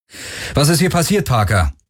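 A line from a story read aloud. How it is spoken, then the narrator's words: Called out. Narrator (German): rief Galen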